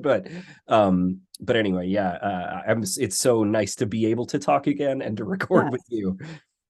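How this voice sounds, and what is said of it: Voice sounds off, ill. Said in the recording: “in case my voice sounds weird, I am recovering from COVID”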